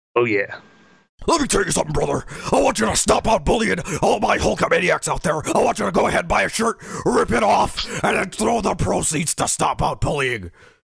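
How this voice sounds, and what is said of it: Hulk Hogan impression. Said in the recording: “my Hogan impression”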